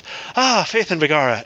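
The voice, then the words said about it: Brief put-on Irish accent. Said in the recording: “my Irish accent always starts off with”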